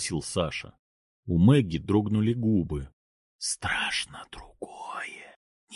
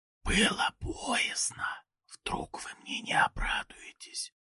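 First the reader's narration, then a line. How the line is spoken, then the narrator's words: Small whisper. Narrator (Russian): прошептал голосок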